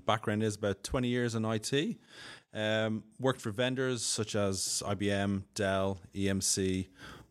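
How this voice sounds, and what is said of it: Irish Dublin accent. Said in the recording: “my accent, I'm Irish, from Dublin”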